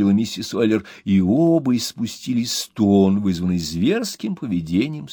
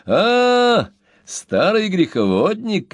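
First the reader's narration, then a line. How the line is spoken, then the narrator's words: Son shouting. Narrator (Russian): крикнул сын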